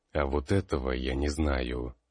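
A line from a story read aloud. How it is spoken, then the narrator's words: Grim chuckle. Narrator (Russian): мрачно хохотнув, ответил Калистратис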